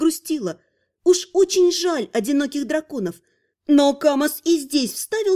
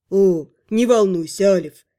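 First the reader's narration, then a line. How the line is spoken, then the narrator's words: Snide, smirking reassurance. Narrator (Russian): Ехидно ухмыльнулся, обнадежил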